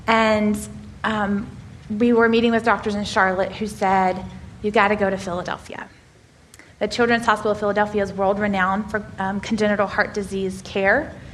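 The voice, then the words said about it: Southern American drawl. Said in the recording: “I have a southern drawl.”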